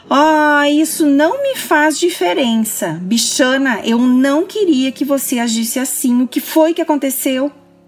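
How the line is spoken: Exclamation. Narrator (Portuguese): Halliday exclamando

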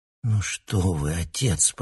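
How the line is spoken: Mumbled. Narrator (Russian): пробормотал Алексей

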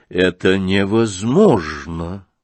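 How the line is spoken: Drawling. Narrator (Russian): протянул Евгений Павлович

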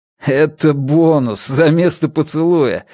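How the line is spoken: Joyful laughter. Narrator (Russian): расхохотался я от радости

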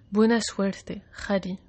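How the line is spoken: Murmured. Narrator (Spanish): murmuró

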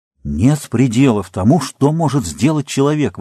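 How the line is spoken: Exclaimed. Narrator (Russian): воскликнул Чезаре

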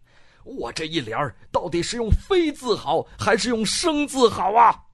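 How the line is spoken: Anguished shout. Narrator (Chinese): 师僧 痛苦的喊

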